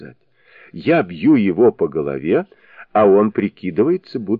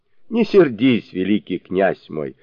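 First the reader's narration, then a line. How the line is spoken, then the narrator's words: Laughing. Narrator (Russian): смеясь проговорила Лоча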